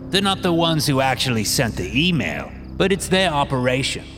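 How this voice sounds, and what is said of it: English accent. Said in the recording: “one of the masked men says in an English accent”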